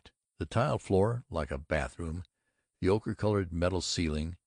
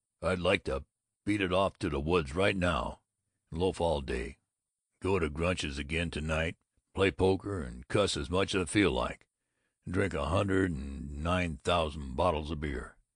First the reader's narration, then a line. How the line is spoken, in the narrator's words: He astoundingly grunted